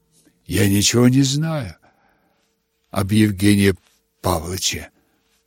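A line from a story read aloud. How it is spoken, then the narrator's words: Muttered. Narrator (Russian): пробормотал князь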